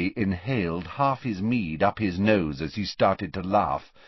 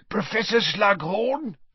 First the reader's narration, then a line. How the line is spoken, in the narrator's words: wheezed Filch, his jowls a-quiver and the maniacal light of mischief detection in his bulging eyes